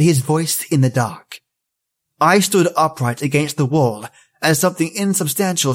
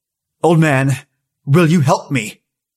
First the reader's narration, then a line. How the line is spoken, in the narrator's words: In my bravest voice, I said